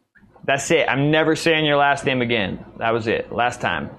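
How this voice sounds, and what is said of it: Usual voice. Nothing is said of it.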